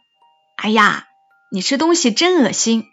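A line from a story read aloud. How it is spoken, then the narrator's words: Loud. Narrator (Chinese): 大声说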